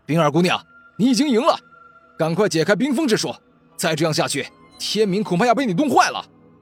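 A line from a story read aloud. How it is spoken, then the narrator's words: Hurried, loud. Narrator (Chinese): 王世明连忙 大声说道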